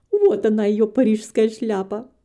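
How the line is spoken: Laughing loudly. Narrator (Russian): хохотала Белла

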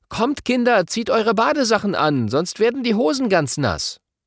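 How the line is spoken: Mother calling. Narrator (German): Mama ruft

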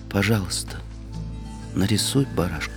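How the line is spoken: Quiet, very serious request. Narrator (Russian): И он опять попросил тихо и очень серьезно

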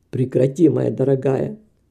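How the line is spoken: Plain. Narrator (Russian): сказал хозяин дома

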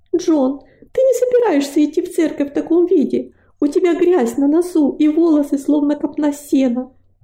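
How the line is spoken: Wife shouting. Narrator (Russian): закричала его жена

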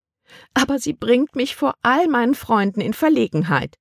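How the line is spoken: Whining complaint. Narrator (German): jammerte Tante Vie

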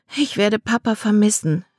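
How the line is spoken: Sighing. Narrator (German): seufzte sie

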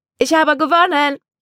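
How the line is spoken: Woman calling out. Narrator (German): rief sie

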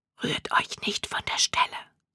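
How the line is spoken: Man whispering. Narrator (German): flüsterte der Mann

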